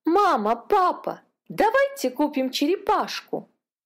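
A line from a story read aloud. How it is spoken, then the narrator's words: Exclaimed. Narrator (Russian): воскликнула Катя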